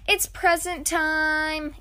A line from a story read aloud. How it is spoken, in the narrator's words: Ian yelled